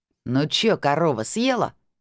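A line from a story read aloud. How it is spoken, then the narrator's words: Mocking laughter. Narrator (Russian): обидно хохотала лиловогубая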